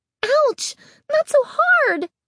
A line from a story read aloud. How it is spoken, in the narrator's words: Carly Beth cried